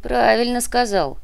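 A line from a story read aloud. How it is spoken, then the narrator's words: Grumbling mutter. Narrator (Russian): пробурчал Муба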